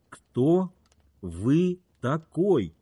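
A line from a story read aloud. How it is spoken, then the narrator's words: Slow, clear. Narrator (Russian): медленно, отчетливо проговорил Кит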